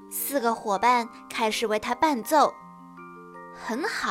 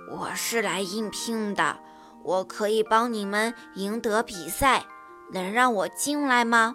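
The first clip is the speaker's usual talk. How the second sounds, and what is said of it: Low, deep voice. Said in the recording (Chinese): “他用很低沉的声音说”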